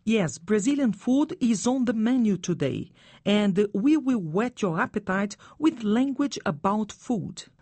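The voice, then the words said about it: Brazilian accent. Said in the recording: “my Brazilian accent ... your accent is charming”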